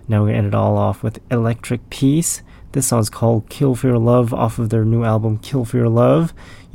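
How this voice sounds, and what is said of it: Raspy voice. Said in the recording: “I'm the one with the raspy voice.”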